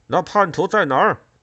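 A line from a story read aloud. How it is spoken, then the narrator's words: Group shouting. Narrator (Chinese): 其他人喊道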